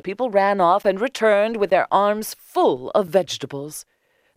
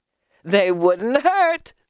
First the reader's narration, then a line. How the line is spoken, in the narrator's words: laughed the beggar